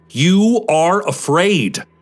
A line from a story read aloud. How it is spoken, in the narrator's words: shouts